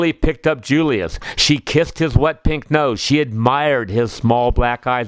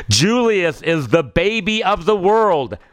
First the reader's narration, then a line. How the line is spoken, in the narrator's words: shouted Cousin Garland